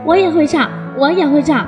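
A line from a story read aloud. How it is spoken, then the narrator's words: Sudden loud bird cry. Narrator (Chinese): 突然，八哥鸟大声叫起来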